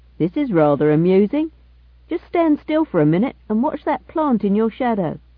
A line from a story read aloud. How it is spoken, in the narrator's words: said to Gibson, his voice thin but clearly audible over this short distance